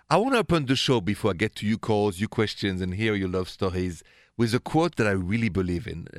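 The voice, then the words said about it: French accent. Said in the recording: “The accent? It's French, straight from Paris, city of love.”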